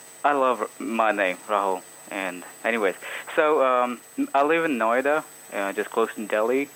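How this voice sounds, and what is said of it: Accent that sounds Hispanic. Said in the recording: “where's this accent from? ... but you sound Hispanic, dude. You sound like you're from some, you know, Hispanic country.”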